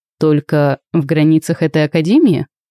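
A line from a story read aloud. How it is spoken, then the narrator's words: Hmphing. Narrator (Russian): хмыкнул Райден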